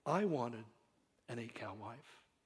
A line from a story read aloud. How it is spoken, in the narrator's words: finished softly